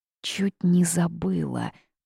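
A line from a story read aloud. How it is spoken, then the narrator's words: Muttering under breath. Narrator (Russian): пробормотала девушка себе под нос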